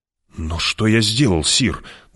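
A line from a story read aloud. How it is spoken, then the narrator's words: Trembling voice question. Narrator (Russian): дрожащим голосом спросил не фут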